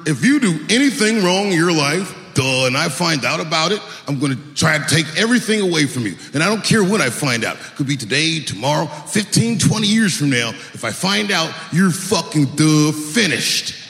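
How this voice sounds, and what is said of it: Impression of the listener, in character. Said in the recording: “I want to see if you can guess who it is I'm doing an impression of. All right, let me get into character. ... That's you.”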